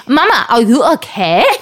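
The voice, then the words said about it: Imitates child with German-tourist accent. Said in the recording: “he sounds like a little ... talks like a little German tourist”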